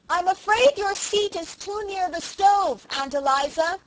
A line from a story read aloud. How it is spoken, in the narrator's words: shouted Felicity